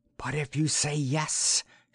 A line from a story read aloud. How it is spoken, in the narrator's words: she whispered